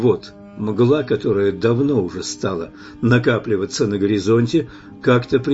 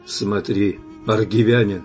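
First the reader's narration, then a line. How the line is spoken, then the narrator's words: Solemn. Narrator (Russian): как-то торжественно сказал мне Араим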